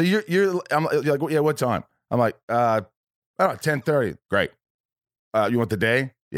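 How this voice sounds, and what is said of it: Usual voice. Nothing is said of it.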